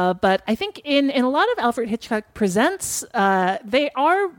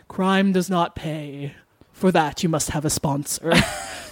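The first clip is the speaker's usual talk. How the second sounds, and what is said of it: Alfred Hitchcock impression. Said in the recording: “Good impression.”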